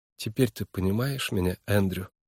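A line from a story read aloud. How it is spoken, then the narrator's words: Tender, affectionate. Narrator (Russian): Голос Нойс звучал нежно и ласково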